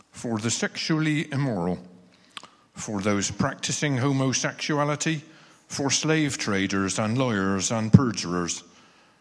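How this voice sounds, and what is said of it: Distinctive accent. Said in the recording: “Can't beat that accent, can you?”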